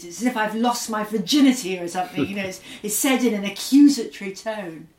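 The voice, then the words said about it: Posh English accent, not Scottish. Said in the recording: “I went to a sort of posh school and lost my Scottish accent when I was about 11 ... without a Scottish accent ... my kind of English gloss”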